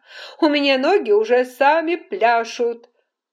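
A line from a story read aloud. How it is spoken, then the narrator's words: Laughing. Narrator (Russian): Дэниел засмеялся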